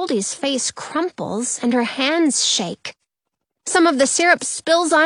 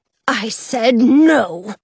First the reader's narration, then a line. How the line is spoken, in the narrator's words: Mother Bear growls